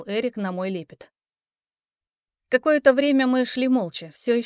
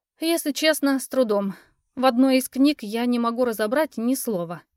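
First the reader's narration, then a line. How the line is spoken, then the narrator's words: Sighing. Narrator (Russian): вздохнула я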